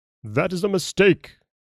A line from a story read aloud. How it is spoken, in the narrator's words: exclaimed the nobleman